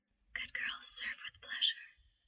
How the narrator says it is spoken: her mindlessly whisper

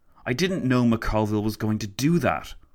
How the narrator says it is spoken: Lloyd George spat

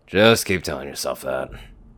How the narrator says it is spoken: Dusty quietly replied

